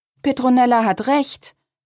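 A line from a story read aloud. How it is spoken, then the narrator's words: Calling out. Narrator (German): rief Lea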